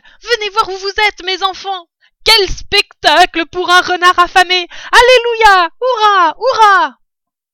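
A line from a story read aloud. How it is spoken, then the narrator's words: Shouting. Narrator (French): criait-il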